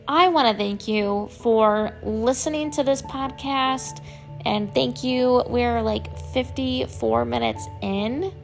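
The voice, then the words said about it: Hoarse, dry voice. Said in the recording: “my voice is more hoarse. It's a, it's a lot of very dry.”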